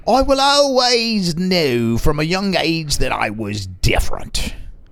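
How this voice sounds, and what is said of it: Put-on Irish pirate accent. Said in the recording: “That's my pirate. That's my Irish pirate accent.”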